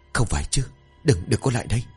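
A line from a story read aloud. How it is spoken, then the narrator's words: Muttering to himself. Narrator (Vietnamese): Quang tự lẩm bẩm trong miệng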